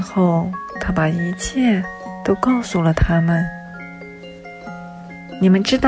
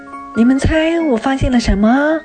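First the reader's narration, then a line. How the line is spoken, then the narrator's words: Loud shout. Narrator (Chinese): 他就大叫起来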